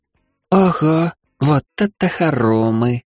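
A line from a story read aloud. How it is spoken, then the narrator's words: Delighted breathless girl. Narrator (Russian): восхищенно выдохнула невысокая девчушка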